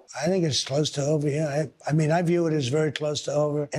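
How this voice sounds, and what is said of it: Hoarse voice. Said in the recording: “your voice is hoarse? ... I've been screaming at Iranians all day, yes.”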